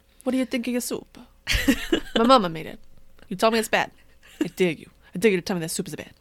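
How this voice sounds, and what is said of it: Put-on Italian-American New Jersey accent. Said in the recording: “I like how that accent was, like, what? Authentic Italy combined with, like, Jersey Italy.”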